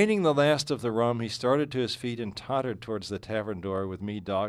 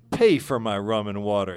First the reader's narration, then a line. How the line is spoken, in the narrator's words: exclaimed Poe, his mouth set into a hard line of anger